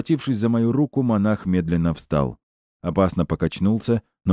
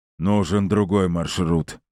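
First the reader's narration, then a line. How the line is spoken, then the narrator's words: General booming. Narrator (Russian): прогудел генерал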